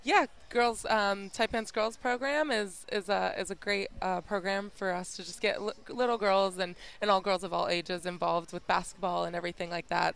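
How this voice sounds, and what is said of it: American accent. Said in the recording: “you got an accent. ... Originally, I'm from the United States, Colorado.”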